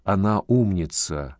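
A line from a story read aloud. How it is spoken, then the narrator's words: Whisper in ear. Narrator (Russian): зашептал Воронцов ему в ухо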